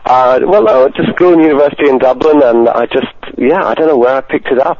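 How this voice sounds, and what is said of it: Posh British-sounding accent. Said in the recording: “such a posh British accent ... you sound like this ... mongrel accent”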